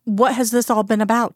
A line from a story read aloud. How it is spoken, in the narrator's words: He stammered